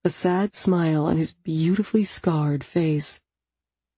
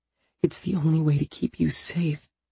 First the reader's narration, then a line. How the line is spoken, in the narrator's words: he says softly